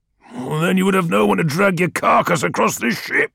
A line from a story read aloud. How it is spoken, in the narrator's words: snarled Ekadon